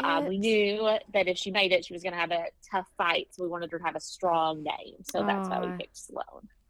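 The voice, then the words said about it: Strong Southern Kentucky drawl. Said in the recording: “You have a drawl. ... Yes, I'm from Kentucky, so very strong southern drawl.”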